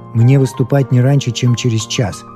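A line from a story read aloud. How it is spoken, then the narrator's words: Plain. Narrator (Russian): сказал он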